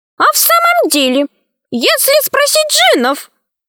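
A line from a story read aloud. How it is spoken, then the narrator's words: Fairy's exclamation. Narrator (Russian): воскликнула фея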